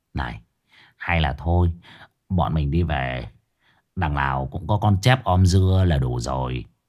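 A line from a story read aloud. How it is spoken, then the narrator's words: Whispered. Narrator (Vietnamese): Cậu thì thầm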